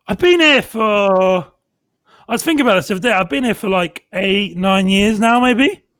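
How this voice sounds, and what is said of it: Southampton accent, West Country-Cockney mix. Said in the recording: “You sound like a Pearly King. ... the Southampton accent is a mixture of, like, West Country and Cockney”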